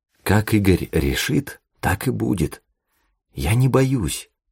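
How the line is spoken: Whispered reply. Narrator (Russian): шепотом же ответила Таисия

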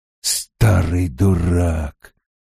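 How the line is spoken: Muttering. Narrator (Russian): пробормотал он

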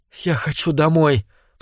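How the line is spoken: Sobbing. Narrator (Russian): всхлипнул Дэвид

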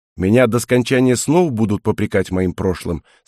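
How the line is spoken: Cold question. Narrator (Russian): спросил я холодно

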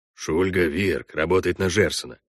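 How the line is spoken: Whisper. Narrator (Russian): шепнул Бюскермолин Парду

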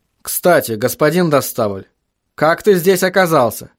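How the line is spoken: Plain. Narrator (Russian): спросил Вильям

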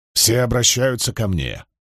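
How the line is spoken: Woman grumbling. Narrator (Russian): буркнула женщина

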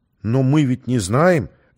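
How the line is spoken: Uncertain reply. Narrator (Russian): неуверенно отозвался Артем

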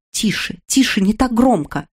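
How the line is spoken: Whisper. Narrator (Russian): прошептала ключница

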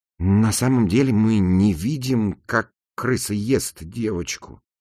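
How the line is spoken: Mutter. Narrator (Russian): пробормотал Натан

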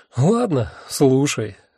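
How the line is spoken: Sighed. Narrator (Russian): вздохнул я

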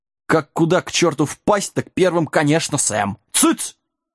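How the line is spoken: Sharp scolding shout. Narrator (Russian): прикрикнул лагун

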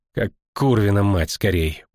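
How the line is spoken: Muttered. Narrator (Russian): буркнула себе под нос Искра

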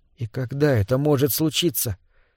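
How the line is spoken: Whisper. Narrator (Russian): прошептала она

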